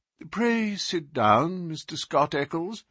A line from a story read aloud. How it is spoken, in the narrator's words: said Holmes in a soothing voice